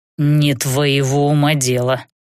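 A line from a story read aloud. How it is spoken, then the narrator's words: Snapping growl. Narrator (Russian): рыкнул вампир, все-таки срываясь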